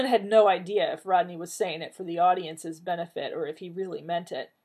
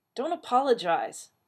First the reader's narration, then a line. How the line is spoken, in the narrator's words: Ronan muttered back